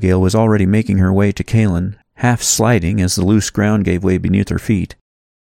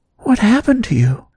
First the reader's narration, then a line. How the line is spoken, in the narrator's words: Abigail asked tenderly, bending down close to him